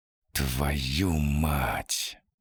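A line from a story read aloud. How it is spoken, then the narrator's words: Hissed. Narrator (Russian): прошипел Данил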